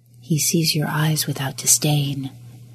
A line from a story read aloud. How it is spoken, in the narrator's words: a voice whispered in the back corners of his mind